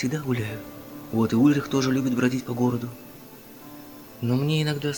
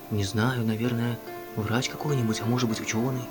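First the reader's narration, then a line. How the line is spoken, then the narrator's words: Quiet. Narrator (Russian): тихо ответил Том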